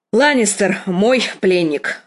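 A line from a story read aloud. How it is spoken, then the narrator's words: Irritated statement. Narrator (Russian): раздраженно сказала Кейтлин сиру Родрику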